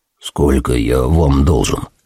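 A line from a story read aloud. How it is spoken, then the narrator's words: Crushed, defeated mumble. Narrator (Russian): Пробормотал я, совершенно на этот раз уничтоженный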